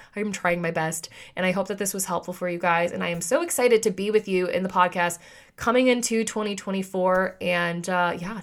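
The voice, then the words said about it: Sick-sounding voice. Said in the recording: “I hope my voice doesn't sound too sick ... I sound super sick”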